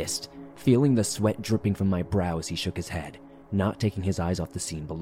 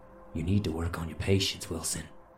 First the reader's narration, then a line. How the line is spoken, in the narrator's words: he breathed